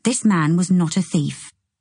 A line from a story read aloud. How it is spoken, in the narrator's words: I said firmly